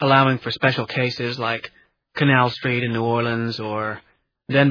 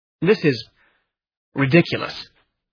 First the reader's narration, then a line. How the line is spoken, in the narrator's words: he exclaimed